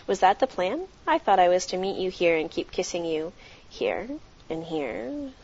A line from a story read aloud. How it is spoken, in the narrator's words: He chuckled out